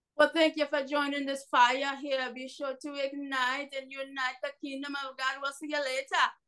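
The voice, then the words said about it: Jamaican accent. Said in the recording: “a rockin' Jamaican accent”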